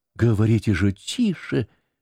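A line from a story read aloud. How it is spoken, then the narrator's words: Frightened whisper. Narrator (Russian): прошептала испуганно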